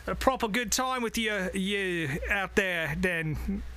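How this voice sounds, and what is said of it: Put-on Australian accent. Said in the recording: “That was a real Australian accent”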